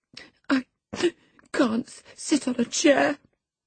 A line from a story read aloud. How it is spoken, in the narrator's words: sobbed the boy